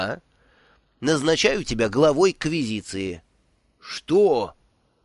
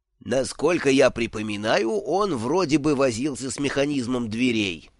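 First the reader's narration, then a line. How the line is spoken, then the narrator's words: Plain. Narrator (Russian): ответил Дидактилус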